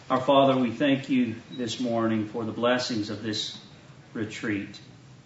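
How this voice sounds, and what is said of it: Southern accent. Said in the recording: “my southern accent”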